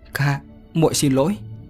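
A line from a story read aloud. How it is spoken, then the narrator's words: Choked, tearful cry. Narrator (Vietnamese): nghẹn ngào thốt lên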